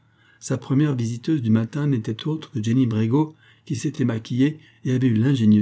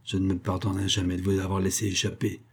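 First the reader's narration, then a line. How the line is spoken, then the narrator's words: Scolding growl. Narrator (French): gronda-t-elle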